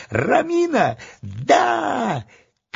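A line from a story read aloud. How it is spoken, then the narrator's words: Yelled at the top of lungs. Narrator (Russian): заорал во все горло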